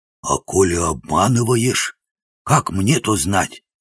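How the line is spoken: Hoarse voice. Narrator (Russian): хриплый голос

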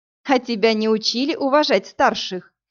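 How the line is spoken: Laughing question. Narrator (Russian): Смеясь, поинтересовалась Иви

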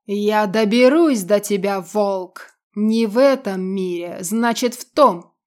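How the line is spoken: Indistinct monster growl. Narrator (Russian): Неразборчиво рычало чудовище

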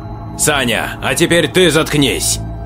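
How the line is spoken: Growled. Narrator (Russian): Прорычал Игнат

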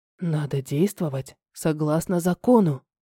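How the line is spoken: Whisper in ear. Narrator (Russian): шепнул на ухо

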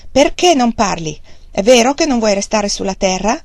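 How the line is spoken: Angry shout. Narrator (Italian): Wang Lung si arrabbiò per il suo silenzio e gli gridò contro

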